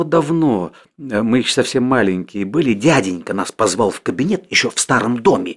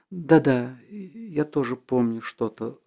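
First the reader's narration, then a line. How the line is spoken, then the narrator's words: Timid reply. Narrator (Russian): робко отвечала Соня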